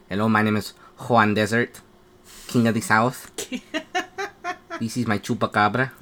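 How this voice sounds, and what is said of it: Badly done put-on accent. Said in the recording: “Oh my god, that accent's horrible.”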